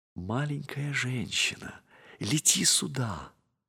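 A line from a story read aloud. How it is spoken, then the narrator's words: Very tender whisper. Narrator (Russian): нежно-нежно шепнула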